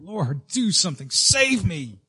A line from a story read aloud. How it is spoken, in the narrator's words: cried out